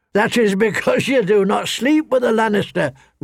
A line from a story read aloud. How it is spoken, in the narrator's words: Robert laughed, the sound rattling among the tombs and bouncing from the vaulted ceiling